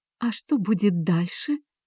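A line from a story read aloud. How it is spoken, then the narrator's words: Whisper. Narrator (Russian): прошептала Алекса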